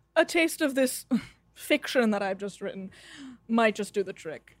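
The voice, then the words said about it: Mixed, mid-Atlantic sounding accent. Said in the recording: “where is that accent from? ... it's a collection of dialects ... it almost sounds like mid-Atlantic.”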